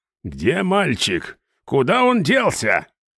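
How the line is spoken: Angry woman shouting. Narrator (Russian): Зло закричала женщина

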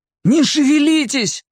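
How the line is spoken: Almost shouted. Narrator (Russian): почти крикнул я

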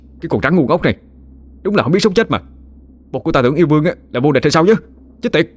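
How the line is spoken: Furious shout through gritted teeth. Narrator (Vietnamese): Khá cũng tái xám mặt mày, nghiến răng nghiến lợi, phẫn nộ mà hét lên

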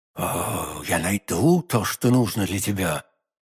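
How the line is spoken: Whisper through clenched teeth. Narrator (Russian): прошептала сквозь зубы миледи

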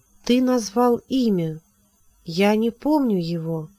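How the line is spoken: Slow, distinct. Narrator (Russian): Медленно, отчетливо она произнесла

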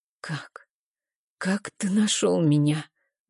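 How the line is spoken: Smoke-hoarse voice. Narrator (Russian): Мой голос хриплый от дыма

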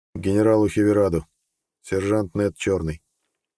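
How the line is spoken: Calm, emotionless report. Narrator (Russian): Нед спокойно, без эмоций, сообщил

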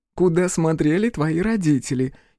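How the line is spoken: Girl giggling. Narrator (Russian): хихикнула девушка

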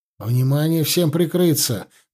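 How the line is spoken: Shout. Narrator (Russian): крикнул он

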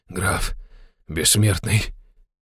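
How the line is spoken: Muttered in recognition. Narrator (Russian): пробормотал он, узнав Ивана

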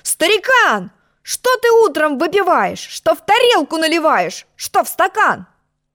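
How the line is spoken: Angry shout. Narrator (Russian): Я сердито закричал

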